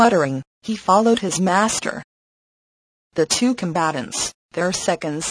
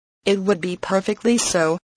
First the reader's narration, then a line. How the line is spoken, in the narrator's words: replied Phileas Fogg